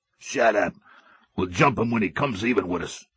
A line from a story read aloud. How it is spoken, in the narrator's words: The tall, unshaven man beside him growled